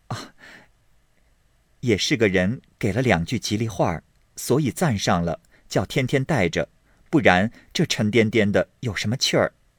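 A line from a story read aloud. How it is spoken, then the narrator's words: Plain. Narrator (Chinese): 一面说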